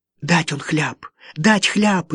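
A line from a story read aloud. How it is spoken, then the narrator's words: Frightened speech. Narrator (Russian): испуганно заговорила она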